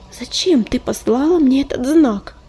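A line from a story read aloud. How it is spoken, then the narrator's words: Pleading. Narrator (Russian): взмолилась целительница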